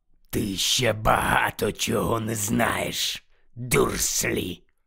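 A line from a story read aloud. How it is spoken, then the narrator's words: Growl. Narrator (Ukrainian): прогарчав Муді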